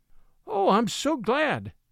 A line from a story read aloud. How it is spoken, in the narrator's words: cried Mary